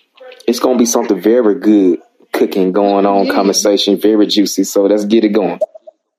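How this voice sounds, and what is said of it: Noticeable regional accent. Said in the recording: “That accent. Where's that accent from”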